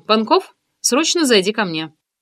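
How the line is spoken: Sharp. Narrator (Russian): я резко сказала

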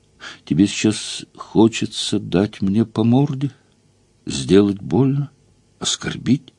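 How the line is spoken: Thoughtful question. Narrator (Russian): задумчиво спросила

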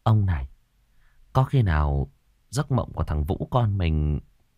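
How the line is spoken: Soft, quiet. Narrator (Vietnamese): Quan bà mới khẽ nói

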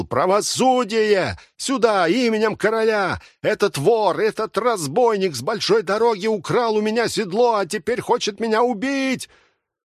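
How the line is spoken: Wailing. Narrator (Russian): Цирюльник вопил

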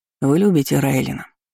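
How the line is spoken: Plain. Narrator (Russian): спросил гость

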